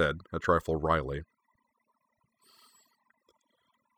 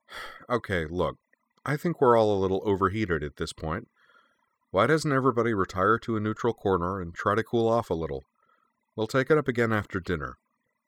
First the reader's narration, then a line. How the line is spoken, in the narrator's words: sighed and said